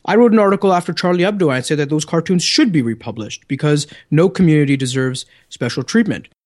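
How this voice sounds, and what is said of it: Canadian accent. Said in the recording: “my good Canadian accent”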